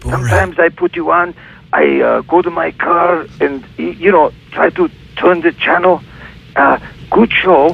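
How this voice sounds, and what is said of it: Comic foreign-accented character voice. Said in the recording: “Do your Borat, man. ... let's hear your Borat impression.”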